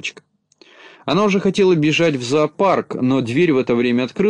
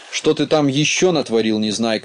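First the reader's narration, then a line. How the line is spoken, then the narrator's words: Angry. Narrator (Russian): сердито подступила к нему Кнопочка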